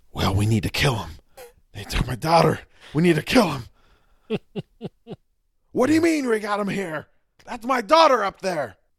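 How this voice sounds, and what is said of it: Imitates another person's voice, raging. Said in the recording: “Every line is either whispered or shouted, and it's all done with a level of rage ... It's a good impression.”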